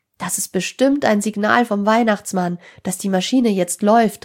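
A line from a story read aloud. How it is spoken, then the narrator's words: Calling out. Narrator (German): rief Tim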